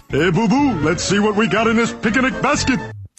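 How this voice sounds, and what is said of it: Yogi Bear cartoon voice. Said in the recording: “your best Yogi Bear impression? ... That's pretty good.”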